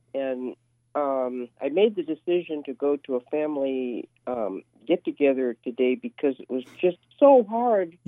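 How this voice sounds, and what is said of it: Sick, congested voice with cough. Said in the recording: “excuse my voice. I might start coughing a little bit ... my head cold now has turned into a cough”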